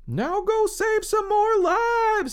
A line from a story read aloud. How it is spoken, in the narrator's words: they probably yelled to Ida Wally Zoradia Lewis